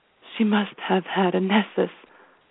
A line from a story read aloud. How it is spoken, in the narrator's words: the principal whispered